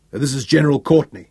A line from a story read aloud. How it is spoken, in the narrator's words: he barked angrily